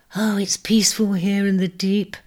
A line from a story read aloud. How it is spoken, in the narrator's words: sighed Pisonna